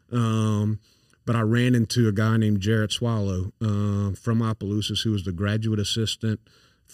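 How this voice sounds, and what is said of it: Thick Louisiana accent. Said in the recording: “I grew up in St. Landry Parish, so I'm I've got a thick accent”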